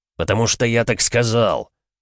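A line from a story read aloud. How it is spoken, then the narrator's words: Barked. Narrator (Russian): рявкнул Григор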